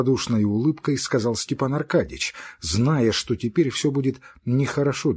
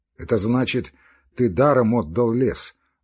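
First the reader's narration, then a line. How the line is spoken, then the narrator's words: Gloomy speech. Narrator (Russian): мрачно сказал Левин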